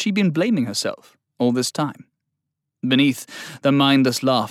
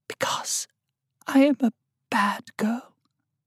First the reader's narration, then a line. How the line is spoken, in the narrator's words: She whispered